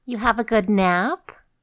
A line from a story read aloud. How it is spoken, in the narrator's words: Janice said teasingly